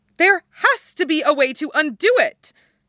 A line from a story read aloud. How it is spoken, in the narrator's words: she shouts